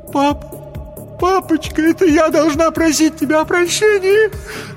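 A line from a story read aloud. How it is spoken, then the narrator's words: Sobbing. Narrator (Russian): зарыдала Хелен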